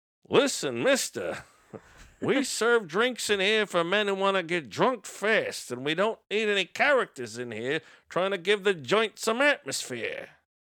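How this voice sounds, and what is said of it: Impression of a movie character. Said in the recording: “that was probably not a very good ... It's very good impersonation. ... Of Nick.”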